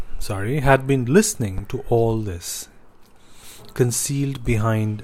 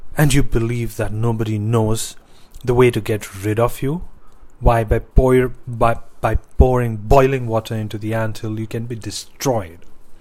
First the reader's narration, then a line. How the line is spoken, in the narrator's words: The snake in the prince's belly angrily hissed back